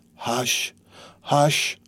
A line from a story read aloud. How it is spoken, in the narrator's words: murmured the dying man